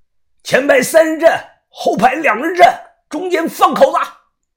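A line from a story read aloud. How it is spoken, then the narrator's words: Sudden angry shout. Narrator (Chinese): 突然，福建人这边呢有个人怒声的喊道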